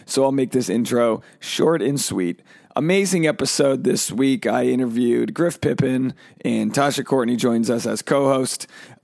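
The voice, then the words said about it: Hoarse, strained voice. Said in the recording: “As you can hear, my voice is shot”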